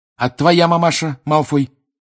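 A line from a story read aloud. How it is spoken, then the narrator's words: Snapping retort. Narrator (Russian): огрызнулся Гарри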